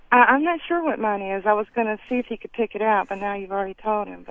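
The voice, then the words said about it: Southern American accent. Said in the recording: “I'm pretty southern sounding, I guess. ... You're pretty southern sounding.”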